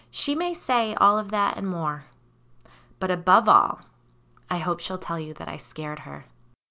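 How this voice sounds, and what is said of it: Raspy voice with vocal fry. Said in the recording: “raspy vocal fry”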